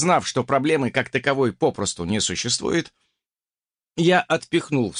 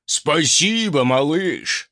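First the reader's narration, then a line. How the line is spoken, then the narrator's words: Pleased booming. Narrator (Russian): довольно прогудел Свальдо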